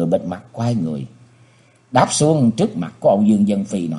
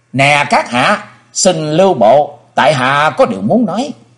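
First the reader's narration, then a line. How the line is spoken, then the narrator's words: Loud call. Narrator (Vietnamese): lớn tiếng kêu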